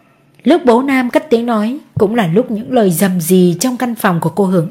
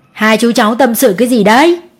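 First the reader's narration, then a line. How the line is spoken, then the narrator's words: Loud laughing. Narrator (Vietnamese): ông cười to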